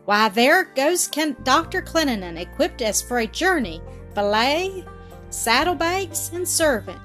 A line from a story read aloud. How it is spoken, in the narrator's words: she exclaimed